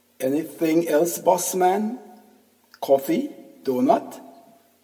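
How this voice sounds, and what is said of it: Thick Indian accent. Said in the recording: “has a thick Indian accent.”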